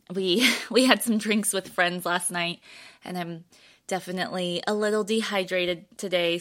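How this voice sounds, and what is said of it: Raspy, dry-throated voice. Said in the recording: “My throat's dry today. ... pardon my voice if it sounds raspy”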